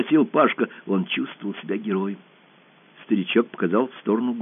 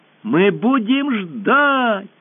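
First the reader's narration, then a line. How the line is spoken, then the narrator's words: Girls shouting in chorus. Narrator (Russian): хором закричали все девушки деревни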